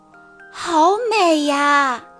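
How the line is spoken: Amazed exclamation. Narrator (Chinese): 卢比惊叹道

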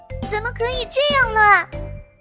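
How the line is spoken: Loud shout. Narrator (Chinese): 糖糖便大喊一声

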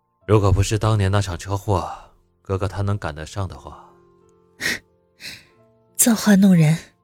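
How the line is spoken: Soft. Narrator (Chinese): 宋子言轻声道

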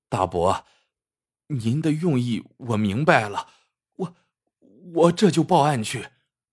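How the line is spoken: Stammering. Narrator (Chinese): 他结结巴巴的说

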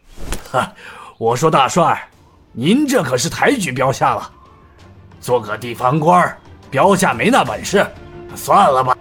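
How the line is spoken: Laughing. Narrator (Chinese): 陈参将笑道

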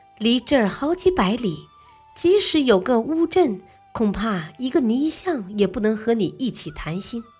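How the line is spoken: Wife, laughing. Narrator (Chinese): 妻子笑着说

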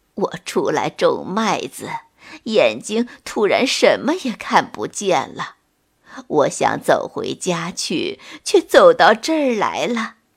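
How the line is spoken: Sighing old woman. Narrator (Chinese): 老奶奶又叹了口气说

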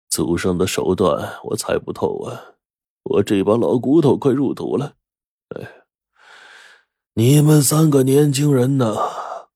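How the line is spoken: Old man sighing. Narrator (Chinese): 高老爷子叹了口气说

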